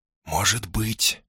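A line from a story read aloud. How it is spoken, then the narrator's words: Whispered reply. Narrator (Russian): шепотом ответила Лилия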